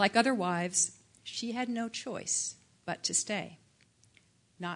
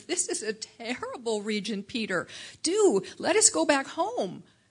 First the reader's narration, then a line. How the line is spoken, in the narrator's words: she cried to her husband